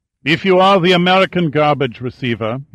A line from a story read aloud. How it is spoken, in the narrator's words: he said in a heavy German accent